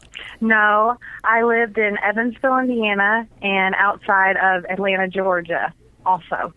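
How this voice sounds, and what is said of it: Southern US country accent. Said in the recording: “You got a nice country accent.”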